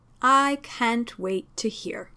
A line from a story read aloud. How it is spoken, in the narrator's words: drawled Mycroft